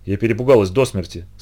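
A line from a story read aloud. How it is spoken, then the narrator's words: Plain. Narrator (Russian): сказала Полли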